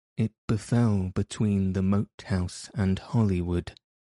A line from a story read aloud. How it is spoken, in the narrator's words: replied Sir Daniel calmly